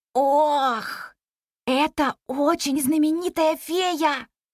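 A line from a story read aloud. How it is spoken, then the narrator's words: Whisper. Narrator (Russian): прошептал Непоседа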